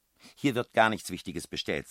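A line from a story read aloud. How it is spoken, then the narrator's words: Fairly loud speech. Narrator (German): sagte die Frau Adriani recht laut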